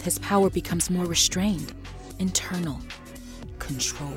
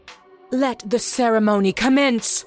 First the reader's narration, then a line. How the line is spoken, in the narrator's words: Brigitte screams